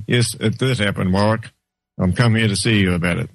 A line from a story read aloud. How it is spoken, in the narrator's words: clearly and calmly said to him